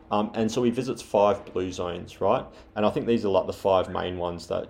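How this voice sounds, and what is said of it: Australian accent. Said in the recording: “My Australian accent probably messed that up.”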